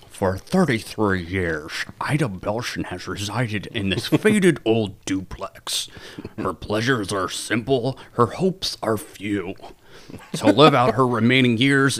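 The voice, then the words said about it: Imitates a TV narrator's voice. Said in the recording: “He does not have a good voice ... you did a really good job of his impression”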